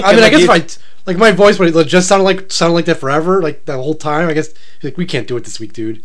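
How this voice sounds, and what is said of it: Deep, nasal voice from a cold. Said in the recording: “You know what I hate when I'm sick on the air ... It's deep, but it's nasally. You can tell it's a cold because it's nasally deep. Like, that's what my voice is right now. Nasally deep.”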